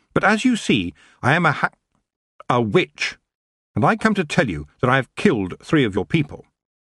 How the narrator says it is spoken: she said firmly

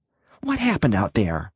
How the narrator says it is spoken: Betty Lou asked him in a taut whisper

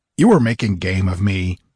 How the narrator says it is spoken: he growled

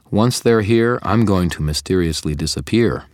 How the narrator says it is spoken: I said

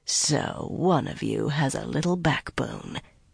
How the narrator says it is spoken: Cadswain laughed softly

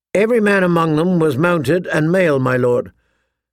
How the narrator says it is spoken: Sir Carol answered calmly

